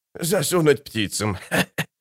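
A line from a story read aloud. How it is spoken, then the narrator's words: Giggling. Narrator (Russian): хихикнул Штырь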